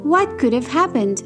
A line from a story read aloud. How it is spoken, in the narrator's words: Aurora cried